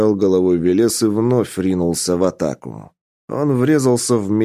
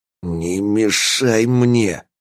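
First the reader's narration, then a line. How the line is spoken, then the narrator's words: Hissed. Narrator (Russian): прошипел он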